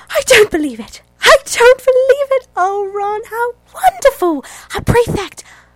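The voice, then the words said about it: Impression of an excited motherly character. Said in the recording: “my impersonation. It's from Order of the Phoenix, and it's Mrs. Weasley's reaction to Ron being named prefect”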